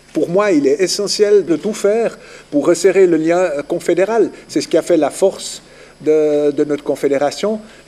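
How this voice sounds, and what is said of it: Vaudois Swiss French accent. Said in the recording (French): “son accent ne laisse pas planer beaucoup de suspense sur ses terres d'origine ... Vaudois je suis, Vaudois je reste”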